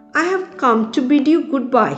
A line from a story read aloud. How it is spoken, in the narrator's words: he cried